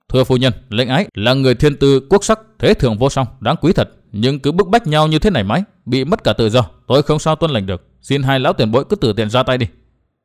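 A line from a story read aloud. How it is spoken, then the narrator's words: Stern. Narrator (Vietnamese): Nguyên Bình nghiêm giọng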